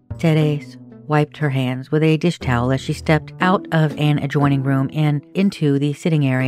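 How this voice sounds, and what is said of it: Usual voice. Nothing is said of it.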